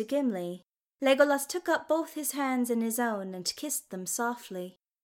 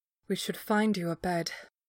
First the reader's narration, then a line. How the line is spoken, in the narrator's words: Legolas murmured